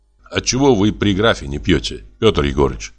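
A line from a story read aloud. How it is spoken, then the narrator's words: Plain. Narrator (Russian): спросил я его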